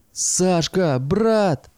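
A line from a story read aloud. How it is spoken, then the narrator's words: Joyful loud cry. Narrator (Russian): радостно заголосил Ленька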